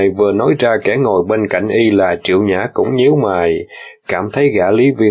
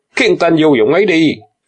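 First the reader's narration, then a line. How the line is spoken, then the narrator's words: Stern, stunned loud shout. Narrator (Vietnamese): Lý Viên không ngờ Đằng Dực lợi hại đến thế, mặt đanh lại quát lớn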